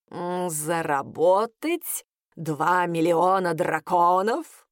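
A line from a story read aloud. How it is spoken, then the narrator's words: Cat snorting. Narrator (Russian): хмыкнул кот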